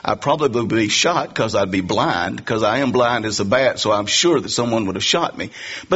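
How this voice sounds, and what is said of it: Southern US accent. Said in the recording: “I'm a Southerner. I don't think that fact escaped many of you in hearing my accent.”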